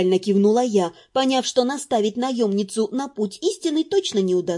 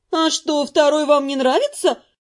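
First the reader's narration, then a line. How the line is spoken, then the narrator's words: Slightly offended question. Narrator (Russian): почти обиженно осведомилась Нет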